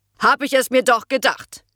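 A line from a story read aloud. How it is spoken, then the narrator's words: Harsh booming shout. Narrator (German): donnerte die harte Stimme von Ute Kasukat über den Schulhof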